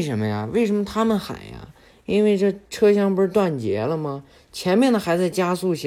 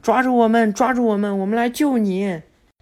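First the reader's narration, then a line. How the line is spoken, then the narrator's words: Shouting. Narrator (Chinese): 就在那喊着呢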